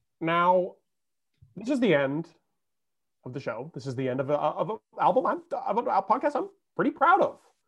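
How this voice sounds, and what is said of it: Impression of the podcast host. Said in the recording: “your Case impression of me asking someone a question on this podcast ... The voice?”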